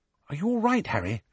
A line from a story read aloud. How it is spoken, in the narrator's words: Hermione whispered